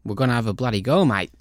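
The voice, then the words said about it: Poorly done put-on Australian accent. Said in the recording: “Like, that is an awful... Australian accent. It's terrible.”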